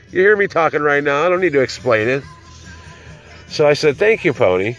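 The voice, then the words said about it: Slightly nasal, slightly slurred voice. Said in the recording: “I'm a little nasally. I kind of slur a little.”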